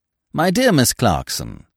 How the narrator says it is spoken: began in an affable voice

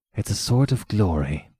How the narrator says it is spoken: muttered after a second

